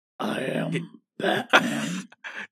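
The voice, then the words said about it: Imitates Batman character voice. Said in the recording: “do the voice ... That's pretty good. ... Christian Bale.”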